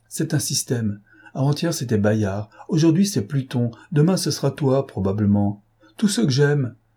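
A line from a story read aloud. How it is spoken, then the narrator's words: Exclaimed. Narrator (French): s'écria Clémentine, en levant ses yeux indignés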